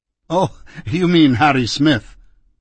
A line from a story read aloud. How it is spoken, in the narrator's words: the doctor said with a laugh